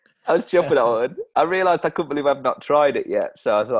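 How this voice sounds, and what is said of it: Usual voice. Nothing is said of it.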